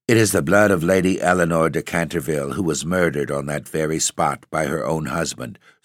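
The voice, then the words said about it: Low, mysterious voice. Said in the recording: “in a low voice ... in the same low, mysterious voice”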